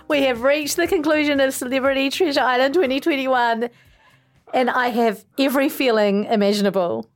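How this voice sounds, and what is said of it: Emotional voice, breaking. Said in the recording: “My voice is breaking. I'm emotional. I have shed tears.”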